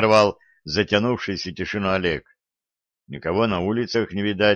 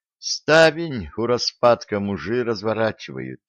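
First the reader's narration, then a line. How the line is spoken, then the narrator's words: Calm woman. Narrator (Russian): спокойно ответила женщина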